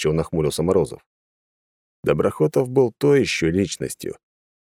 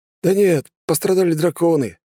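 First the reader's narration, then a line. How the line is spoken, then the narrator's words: Cheerful laugh. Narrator (Russian): весело рассмеялся гвардеец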